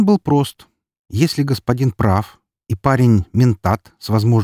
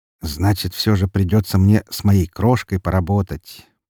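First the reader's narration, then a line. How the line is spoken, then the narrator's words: Male mutter. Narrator (Russian): пробормотал Сахим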